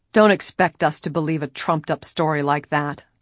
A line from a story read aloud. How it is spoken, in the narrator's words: the leader said harshly